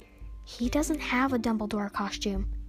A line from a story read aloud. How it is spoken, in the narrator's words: Jax whispered to her